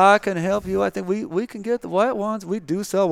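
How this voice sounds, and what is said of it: Usual voice. Nothing is said of it.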